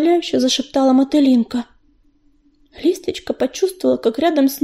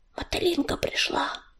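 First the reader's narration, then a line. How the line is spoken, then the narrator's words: Quiet reply. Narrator (Russian): тихо ответила Листочка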